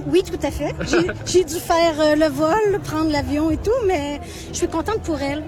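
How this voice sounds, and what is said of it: Slight Québécois French accent. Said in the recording (French): “vous entendez le petit accent ... qui vient du Québec”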